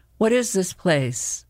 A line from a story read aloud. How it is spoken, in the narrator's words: Tom laughed in a breathy moan